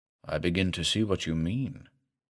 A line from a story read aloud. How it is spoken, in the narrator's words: said the doctor softly